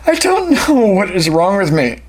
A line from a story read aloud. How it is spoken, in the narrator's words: he sobbed